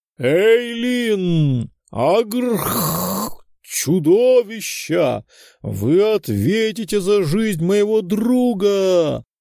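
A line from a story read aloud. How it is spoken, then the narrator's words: Furious roar. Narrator (Russian): Взревел герой в золотых доспехах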